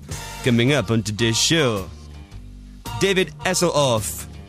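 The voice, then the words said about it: Weak put-on French accent. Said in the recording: “a good French accent ... That wasn't the best.”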